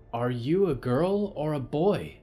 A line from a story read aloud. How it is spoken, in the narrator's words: a voice said